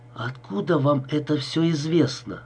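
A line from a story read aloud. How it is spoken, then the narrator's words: Strained forced words. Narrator (Russian): с трудом выдавил я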